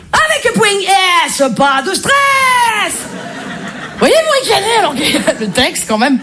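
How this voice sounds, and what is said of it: Marseille French accent. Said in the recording (French): “Je suis marseillaise ... l'accent marseillais se suffit à lui-même ... quand t'as l'accent marseillais”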